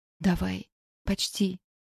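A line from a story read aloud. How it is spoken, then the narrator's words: Whispered. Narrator (Russian): прошептала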